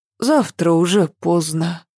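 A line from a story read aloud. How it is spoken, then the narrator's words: Sighing. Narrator (Russian): вздохнула Ася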